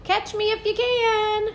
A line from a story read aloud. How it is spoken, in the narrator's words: he only heard me squeaking